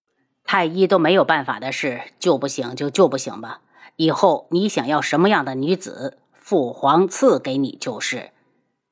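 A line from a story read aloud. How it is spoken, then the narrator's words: Cold. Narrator (Chinese): 冷声道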